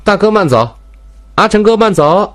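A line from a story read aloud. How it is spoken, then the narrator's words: Calling out. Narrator (Chinese): 明台也随即喊道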